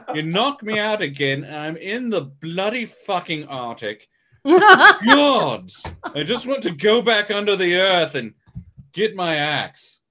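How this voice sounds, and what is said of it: Monster character with British accent. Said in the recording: “why does he have Chained a British accent? ... why does Kong have to have a British accent? ... what's with the British accent?”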